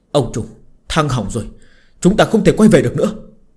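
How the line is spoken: Frightened, trembling voice. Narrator (Vietnamese): người bảo tiêu đã bắt đầu hoảng sợ, hắn ta dùng giọng run rẩy nói

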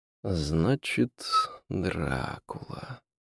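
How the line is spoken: Drawled. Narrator (Russian): протянул Дориан

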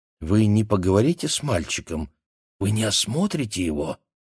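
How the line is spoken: Whispering. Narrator (Russian): зашептала мама

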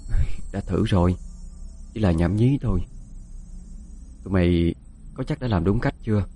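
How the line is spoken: Soft. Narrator (Vietnamese): Quanh khẽ nói

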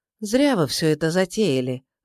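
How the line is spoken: Sighing. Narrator (Russian): вздохнула Настя

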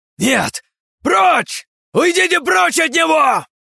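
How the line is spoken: Wailed. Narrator (Russian): завопила вновь страница

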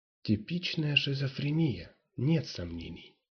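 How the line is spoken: Whispered. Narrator (Russian): прошептал Ву

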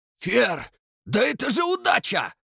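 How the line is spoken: Exclamation. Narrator (Russian): воскликнул Дон

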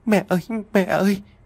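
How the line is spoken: Sobbing. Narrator (Vietnamese): Long nức nở nói

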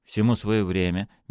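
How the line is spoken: Soft. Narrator (Russian): мягко сказал Иннокентий

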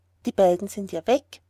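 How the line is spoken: Plain. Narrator (German): sagt

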